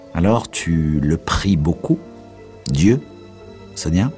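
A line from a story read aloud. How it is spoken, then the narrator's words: Plain. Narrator (French): demanda-t-il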